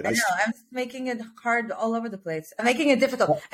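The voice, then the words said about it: Speaks with a foreign accent. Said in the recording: “With your accent, it sounds substantially better.”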